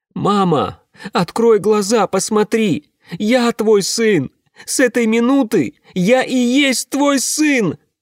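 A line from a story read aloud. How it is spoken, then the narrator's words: Screamed. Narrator (Russian): закричала она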